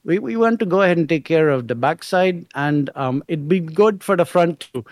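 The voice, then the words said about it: Put-on Indian accent. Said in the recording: “he's an Indian guy ... that accent”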